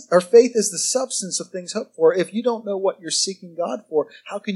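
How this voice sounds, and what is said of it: Usual voice. Nothing is said of it.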